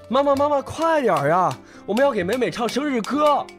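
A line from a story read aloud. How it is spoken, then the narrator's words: Boy calling out eagerly. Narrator (Chinese): 哥哥一边敲一边叫着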